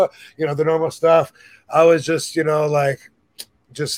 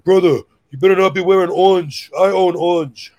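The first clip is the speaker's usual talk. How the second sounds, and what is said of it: Imitates another person's voice. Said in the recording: “imitating Taz like always”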